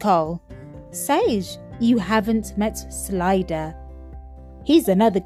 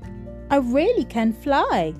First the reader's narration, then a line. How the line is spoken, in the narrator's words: she chirped